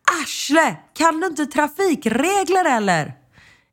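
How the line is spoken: Shouted quite loudly. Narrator (Swedish): ropa rätt högt

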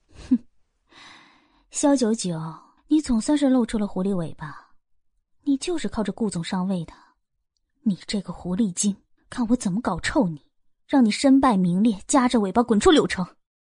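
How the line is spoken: Cold sneer. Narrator (Chinese): 萧晴晴忍不住冷笑

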